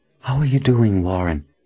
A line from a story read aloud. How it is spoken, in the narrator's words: she whispered